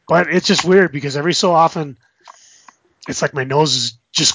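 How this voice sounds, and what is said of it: Congested voice from a cold. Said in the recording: “I've still got that freaking cold in my sinuses”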